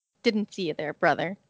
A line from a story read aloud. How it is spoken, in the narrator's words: Judson growled low